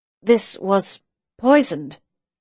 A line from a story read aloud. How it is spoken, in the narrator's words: said slowly, almost slurring her words